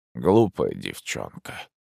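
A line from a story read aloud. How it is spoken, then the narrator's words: Muttering. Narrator (Russian): пробормотал он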